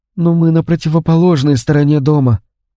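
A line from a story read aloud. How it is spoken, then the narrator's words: Sad. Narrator (Russian): грустно проговорила Розмари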